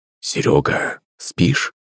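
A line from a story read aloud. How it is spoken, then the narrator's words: Father's whisper. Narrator (Russian): шепот бати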